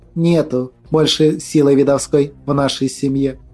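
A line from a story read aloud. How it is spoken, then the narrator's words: Calm. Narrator (Russian): спокойно произнесла Глафира Митрофановна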